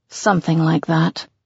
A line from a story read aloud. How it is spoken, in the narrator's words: I mutter